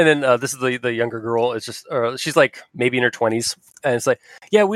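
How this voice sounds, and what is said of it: Usual voice. Nothing is said of it.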